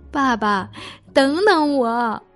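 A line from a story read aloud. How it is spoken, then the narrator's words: Crying call. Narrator (Chinese): 我哭着叫道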